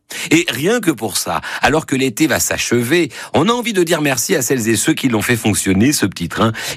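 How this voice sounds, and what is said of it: Southern French accent. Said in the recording (French): “accent du sud”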